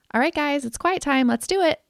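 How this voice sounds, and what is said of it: Upbeat, excited, slightly forced tone. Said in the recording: “That's usually the tone that I'm leading with... my voice sounds a little inauthentic when I say that... my voice is that excited”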